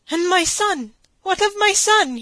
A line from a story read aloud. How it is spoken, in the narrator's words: he cried out